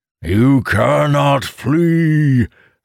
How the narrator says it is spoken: the Aurith monster bellowed

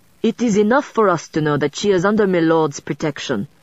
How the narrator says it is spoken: Pierre said roughly, a clear warning in his tone

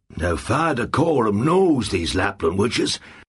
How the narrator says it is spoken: John Farr said

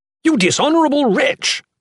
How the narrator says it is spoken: Kim Dan spat

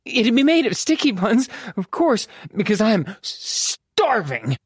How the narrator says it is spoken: gasping for breath, she added

